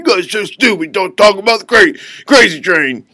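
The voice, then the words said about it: Imitates another person's voice. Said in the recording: “He sounds just like that... a really good impression.”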